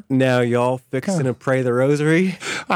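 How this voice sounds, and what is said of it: Southern drawl like Gomer Pyle. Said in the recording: “Texas accent ... Golly, that's a little Gomer Pyle. That's more like mid up, you know, Tennessee or wherever Mayberry is”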